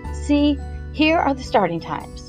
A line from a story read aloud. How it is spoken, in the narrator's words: she said nervously